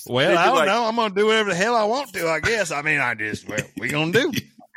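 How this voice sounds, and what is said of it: Put-on Southern US accent. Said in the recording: “talking so southern”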